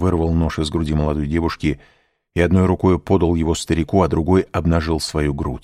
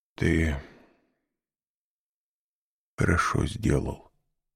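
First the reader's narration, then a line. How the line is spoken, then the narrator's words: Muffled voice, old man. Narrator (Russian): сказал старик глухим голосом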